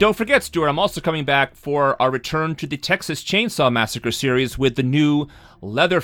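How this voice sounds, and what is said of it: Usual voice. Nothing is said of it.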